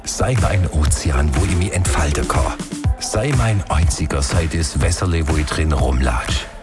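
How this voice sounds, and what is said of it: Song lyrics spoken in Swabian dialect. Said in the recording (German): “Hits auf Schwäbisch”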